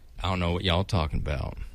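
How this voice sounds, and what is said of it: Poorly done Southern accent. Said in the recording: “Southern accent... Oh, you want Southern?... I feel like that was even a bad act. It wasn't good”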